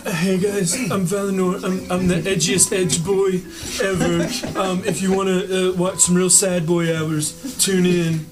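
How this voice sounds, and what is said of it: Impression of D&D character Valinor. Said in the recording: “do an impression of their fellow D&D player's character ... I have Valinor Quintelinar.”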